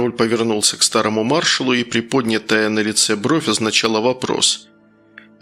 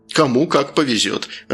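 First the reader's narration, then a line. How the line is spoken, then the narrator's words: Laughing. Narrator (Russian): рассмеялся Круглов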